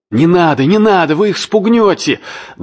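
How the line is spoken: Annoyed shout. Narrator (Russian): досадливо крикнул кто-то на палубе

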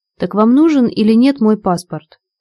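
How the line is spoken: Very displeased sharp question. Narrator (Russian): Очень недовольно, даже резко, поинтересовалась первая брюнетка

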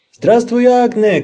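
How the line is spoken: Shout. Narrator (Russian): крикнул ей Людвиг XIV

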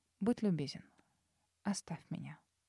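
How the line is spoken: Even voice. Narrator (Russian): ровным голосом произнесла

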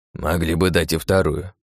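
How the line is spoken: Grumble, old man. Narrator (Russian): проворчал дед

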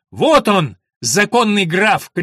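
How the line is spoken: Shout. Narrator (Russian): крикнула Алина

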